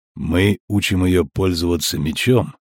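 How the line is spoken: Quiet. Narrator (Russian): тихо проговорил Геральт

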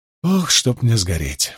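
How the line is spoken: Breathless exhale. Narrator (Russian): выдохнул Перин

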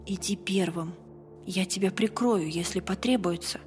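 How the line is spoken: Whispered. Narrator (Russian): прошептала

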